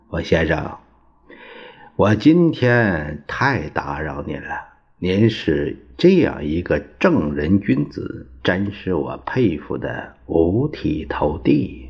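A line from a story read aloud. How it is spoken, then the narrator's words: Forced smiling. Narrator (Chinese): 戴笠堆下一个笑脸，说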